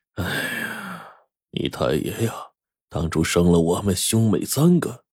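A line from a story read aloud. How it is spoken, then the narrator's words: Sighing old man. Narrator (Chinese): 老爷子忽然叹了口气说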